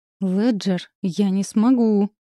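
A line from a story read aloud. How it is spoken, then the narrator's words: Angry hiss. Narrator (Russian): прошипело зло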